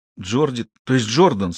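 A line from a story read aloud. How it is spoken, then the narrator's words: Sobbing boy. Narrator (Russian): со всхлипом поправился мальчик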